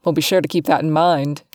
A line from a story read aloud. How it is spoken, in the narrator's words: Jet says in that deep voice of his with a grin similar to his dad's